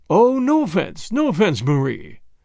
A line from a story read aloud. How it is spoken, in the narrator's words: said Pereira in his smooth, rich voice